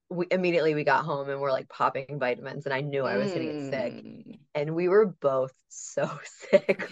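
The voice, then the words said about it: Sick, congested voice. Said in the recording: “I don't know if you can still even hear it in my voice. ... I can.”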